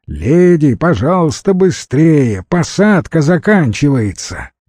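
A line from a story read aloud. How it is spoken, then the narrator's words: Shouting border guard. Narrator (Russian): прокричал пограничник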